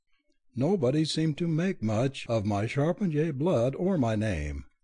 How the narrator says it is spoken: Gabriella observed dryly

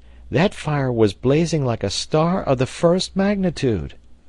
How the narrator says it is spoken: cried Herbert

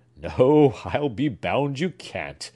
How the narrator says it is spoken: cried Clifford, laughing

